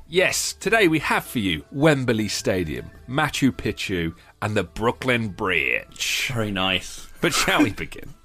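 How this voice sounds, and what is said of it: English accent shifting into Brooklyn accent. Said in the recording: “I started that in an English accent, and then halfway through, I, I thought, no, I'm going to try. I'm going to try my Brooklyn.”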